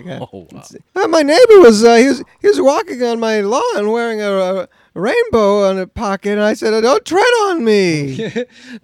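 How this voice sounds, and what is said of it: Imitates another person's voice. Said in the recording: “So this is an impersonation of Jerry Seinfeld. If he was also a proud boy”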